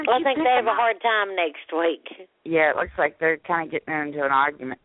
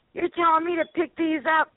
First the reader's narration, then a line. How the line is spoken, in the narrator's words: he was screaming at Brooke